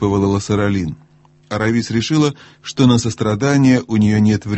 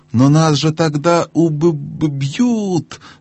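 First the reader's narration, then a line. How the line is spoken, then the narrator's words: Stammering. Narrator (Russian): заикаясь, проговорила Лассаралин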